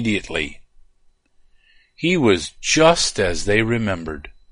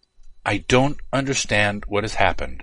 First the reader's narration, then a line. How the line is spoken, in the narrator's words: said